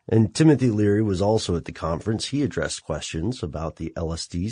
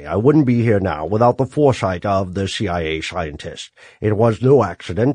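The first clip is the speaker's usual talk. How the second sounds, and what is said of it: Sean Connery-like impersonated voice. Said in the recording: “can I do a voice? ... Is that like a Sean Connery voice?”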